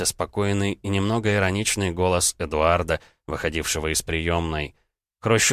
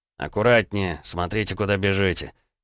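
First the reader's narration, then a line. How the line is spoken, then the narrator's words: Frowning, through teeth. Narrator (Russian): нахмурившись, процедил Бобров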